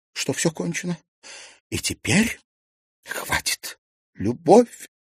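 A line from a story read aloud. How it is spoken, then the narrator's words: Moaning. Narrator (Russian): простонала Серафима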